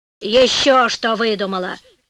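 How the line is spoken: Grumbling old woman. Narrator (Russian): проворчала старуха

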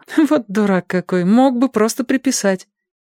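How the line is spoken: Laughing. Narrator (Russian): она засмеялась и сказала

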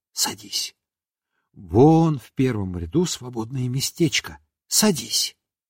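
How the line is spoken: Whispered. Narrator (Russian): Марья Николаевна шепнула

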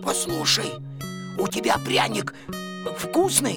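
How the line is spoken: Sudden hoarse croak. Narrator (Russian): Костя вдруг прохрипел

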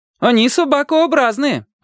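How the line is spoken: Shouted. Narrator (Russian): крикнул Володя

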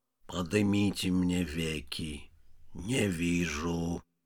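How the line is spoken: Deep underground voice. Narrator (Russian): сказал подземным голосом Вий

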